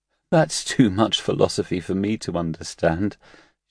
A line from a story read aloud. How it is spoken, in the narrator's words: Shi Zhe laughed through her tears